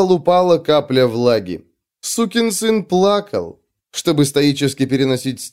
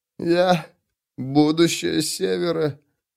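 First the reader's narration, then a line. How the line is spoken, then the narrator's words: Unsure, doubtful mumble. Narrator (Russian): промямлил он таким тоном, словно сам не верил, что это может быть правдой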